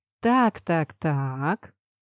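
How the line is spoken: Drawn out. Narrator (Russian): протянула я

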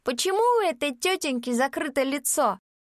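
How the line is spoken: Loud child's voice. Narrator (Russian): детский голос громко произнес

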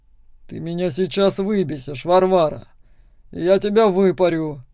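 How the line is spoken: Through gritted teeth. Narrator (Russian): произносит сквозь зубы

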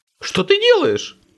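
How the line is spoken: Piercing panicked shriek. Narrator (Russian): как резанный визжал Виктор

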